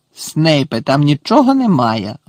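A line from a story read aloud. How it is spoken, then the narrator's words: Bark. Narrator (Ukrainian): гаркнув Муді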